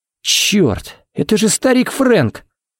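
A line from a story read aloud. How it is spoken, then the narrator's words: Breathless exclamation. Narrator (Russian): Выдохнул Харри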